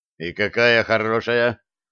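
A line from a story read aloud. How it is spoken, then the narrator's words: Gloomy. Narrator (Russian): мрачно спросил Блад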